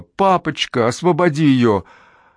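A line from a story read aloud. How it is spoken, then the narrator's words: Piercing scream. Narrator (Russian): Мерси пронзительно закричала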